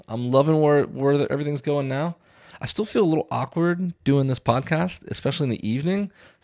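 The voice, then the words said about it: Quiet, subdued low-energy speech. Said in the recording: “my voice is a little different. I feel like I'm like actually turning down my volume, which is turning down my energy”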